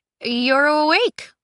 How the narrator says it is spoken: she stammered

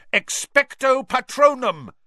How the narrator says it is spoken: he roared

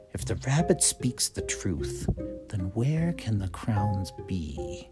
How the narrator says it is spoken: the pumpkin muttered to himself

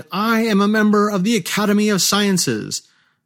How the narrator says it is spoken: Lacking pudeur, modesty, he shouted

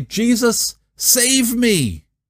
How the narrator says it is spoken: as he sank, Peter cried

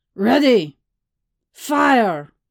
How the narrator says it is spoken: Vinuka barked

